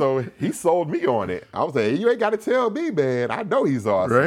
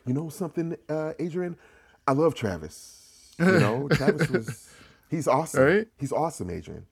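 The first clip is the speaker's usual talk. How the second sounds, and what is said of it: Imitated California accent. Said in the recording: “he's a brother from California, so he had that kind of California accent.”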